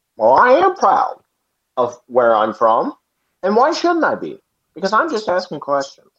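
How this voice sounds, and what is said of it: Tucker Carlson impression. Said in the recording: “That's my Tucker. I'm working on it. ... doing a Tucker Carlson impression”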